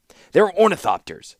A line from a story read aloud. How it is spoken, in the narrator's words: said the captain